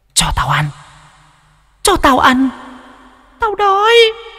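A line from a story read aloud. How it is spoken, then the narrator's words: Faint echoing hiss. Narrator (Vietnamese): âm thanh nó rít lên văng vẳng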